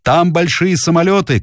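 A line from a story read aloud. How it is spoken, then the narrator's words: Shouting. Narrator (Russian): кричал Дэви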